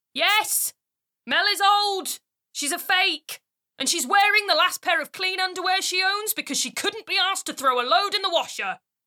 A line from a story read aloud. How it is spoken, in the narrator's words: someone standing behind me with a megaphone screaming